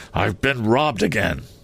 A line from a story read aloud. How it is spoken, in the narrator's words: His father ... exclaimed